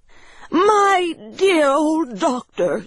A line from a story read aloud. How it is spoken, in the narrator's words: cried